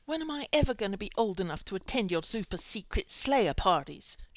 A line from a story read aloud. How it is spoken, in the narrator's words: grumbled